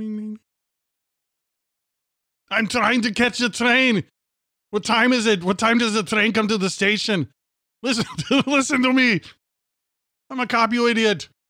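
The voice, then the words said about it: Imitates another person's voice. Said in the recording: “You do an impersonation.”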